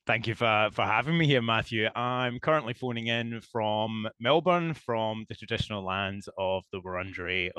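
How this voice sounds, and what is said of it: Scottish accent. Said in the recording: “That is not a Melbourne accent. ... Shores of Scotland? ... definitely not an Australian accent ... originally from a small town in the west coast of Scotland”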